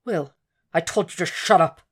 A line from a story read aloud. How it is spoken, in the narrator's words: Will said tightly through a swallow and a frown